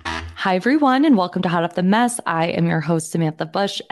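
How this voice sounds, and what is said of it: Unusually deep voice. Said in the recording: “I'm coming to you sounding like Erika Jayne. I sound like Luann de Lesseps. ... My voice is deep. It's like I don't even sound like myself.”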